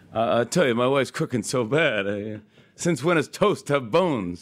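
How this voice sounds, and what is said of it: Rodney Dangerfield impression. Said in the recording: “having me do Rodney Dangerfield. That was a big thing that I would do an impression of him ... they'd have me do Rodney ... I do like three Rodney jokes”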